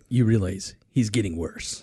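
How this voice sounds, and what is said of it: Imitates another person's voice. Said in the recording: “That's my Chick impression. Not very good”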